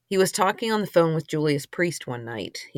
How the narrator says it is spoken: he says

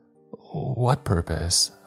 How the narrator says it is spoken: I stuttered

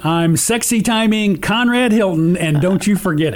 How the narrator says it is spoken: He screamed, again

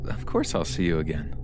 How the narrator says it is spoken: She laughs and says

